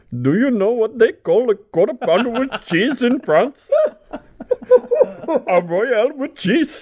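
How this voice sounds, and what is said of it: Stereotyped put-on accent. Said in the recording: “give a main character a different accent ... it's gonna sound racially stereotyped”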